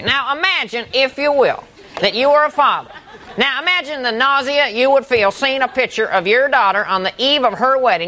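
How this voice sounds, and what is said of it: Imitates another person's voice. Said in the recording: “That was a funny impersonation.”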